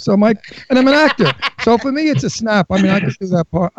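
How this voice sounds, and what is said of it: New York Brooklyn accent. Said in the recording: “I'm from Brooklyn. I have a New York accent.”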